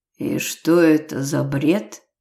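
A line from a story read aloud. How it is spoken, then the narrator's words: Orc's astonished strained words. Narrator (Russian): изумленно выдавил орк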